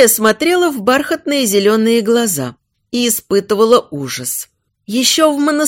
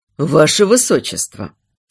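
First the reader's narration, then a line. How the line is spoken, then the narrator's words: Quiet call. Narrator (Russian): тихо позвал бывший жених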